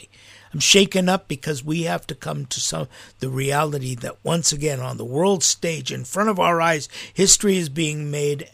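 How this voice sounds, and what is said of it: Shaken, emotional voice. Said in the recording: “you can hear in my voice that I'm really shaken up, as I am today.”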